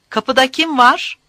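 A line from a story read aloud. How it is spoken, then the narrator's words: Shout. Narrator (Turkish): diye haykırdı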